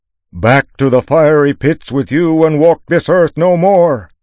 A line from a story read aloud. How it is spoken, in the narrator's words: shouted Inkerman